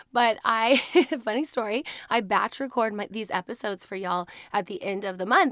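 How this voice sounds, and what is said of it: Hoarse voice. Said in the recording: “I just have a bit of a hoarse voice because I actually got sick last week and lost my voice completely”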